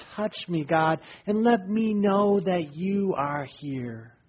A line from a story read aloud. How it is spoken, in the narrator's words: the person cried out in despair